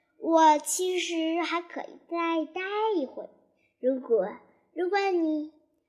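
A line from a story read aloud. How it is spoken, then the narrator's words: Plain. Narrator (Chinese): 他一边说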